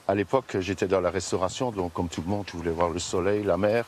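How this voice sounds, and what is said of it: Slight Belgian French accent. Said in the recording (French): “ma Belgique natale ... Tu me disais que tu avais un petit accent”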